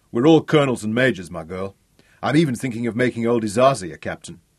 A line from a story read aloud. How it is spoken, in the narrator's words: he told her with a wink and an irreverent chuckle